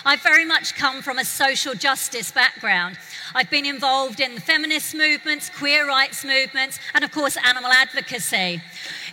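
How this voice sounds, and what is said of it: London accent. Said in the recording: “This took place in London, where I'm from. You can tell by the accent.”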